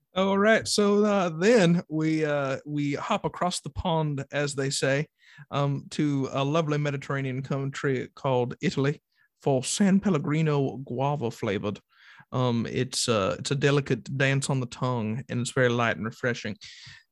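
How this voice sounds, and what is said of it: Put-on Southern US accent. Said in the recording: “I don't know why I'm in a southern voice, but I've locked it in. I cannot go away now.”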